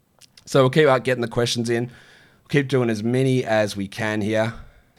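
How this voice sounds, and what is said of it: Strained, worn-out voice. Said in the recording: “my voice is absolutely dying”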